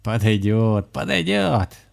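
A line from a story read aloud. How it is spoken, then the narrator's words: Warlock laughing. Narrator (Russian): засмеялся чернокнижник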